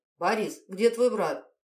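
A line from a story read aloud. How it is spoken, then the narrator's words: Sharp question. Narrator (Russian): она резко спросила его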